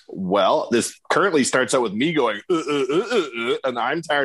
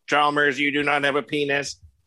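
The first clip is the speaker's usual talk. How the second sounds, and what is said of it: Robotic voice. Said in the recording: “robot voice ... That robot's crazy mad”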